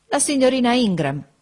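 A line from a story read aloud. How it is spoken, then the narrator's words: Widow exclaims. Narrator (Italian): esclamò la vedova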